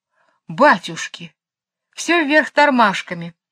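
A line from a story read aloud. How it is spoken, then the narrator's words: Exclaiming. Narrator (Russian): воскликнул Джейн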